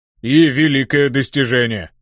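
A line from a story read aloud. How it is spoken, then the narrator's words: Growled. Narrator (Russian): прорычал Ханг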